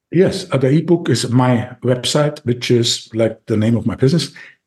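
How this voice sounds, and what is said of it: Austrian-accented English. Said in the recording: “I still have this accent, this Austrian accent, like Arnold Schwarzenegger.”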